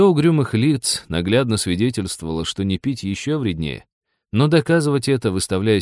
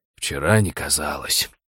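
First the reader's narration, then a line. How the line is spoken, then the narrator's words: Gruff mutter. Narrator (Russian): буркнул Хрущак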